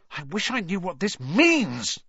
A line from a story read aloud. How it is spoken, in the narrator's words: he burst out angrily